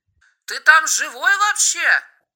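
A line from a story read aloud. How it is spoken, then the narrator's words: Shouted. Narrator (Russian): прокричал Брагинский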